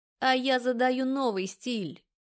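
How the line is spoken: Mocking declaration. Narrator (Russian): Насмешливо заявляет Чертков

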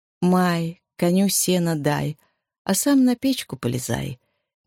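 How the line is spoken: Slow, smiling sing-song. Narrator (Russian): медленно поднимая улыбающееся лицо, пропела она

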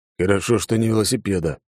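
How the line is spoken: Grumbling mutter. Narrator (Russian): буркнул Алекс

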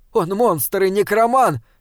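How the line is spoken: Princess shouting. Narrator (Russian): крикнула принцесса

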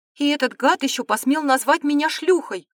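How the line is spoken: Indignant shout. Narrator (Russian): выкрикнула она, вспомнив обстоятельства их встречи в подземельях Академии

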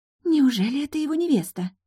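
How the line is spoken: Too-loud whisper, young woman. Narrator (Russian): Слишком громко шепнула одна из девушек

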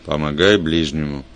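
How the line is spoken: Gruff grunt. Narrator (Russian): Я буркнул в ответ

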